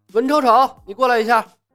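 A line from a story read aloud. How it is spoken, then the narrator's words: Calling out. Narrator (Chinese): 朝门外喊道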